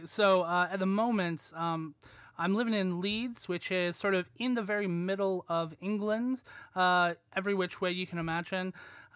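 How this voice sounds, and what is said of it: American accent. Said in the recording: “as you can probably tell from my voice ... I'm American”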